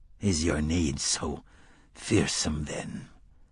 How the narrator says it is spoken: Court muttered as if in his sleep

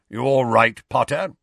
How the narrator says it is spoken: grunted Moody

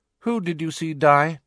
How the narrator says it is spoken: she asked, her tone indifferent

